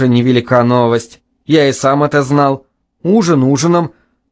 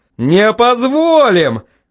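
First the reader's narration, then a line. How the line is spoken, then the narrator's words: Shouting. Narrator (Russian): кричали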